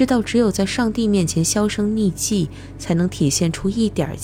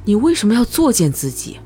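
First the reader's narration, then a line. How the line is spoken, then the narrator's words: Calm, natural. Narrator (Chinese): 他的声音始终那么平静自然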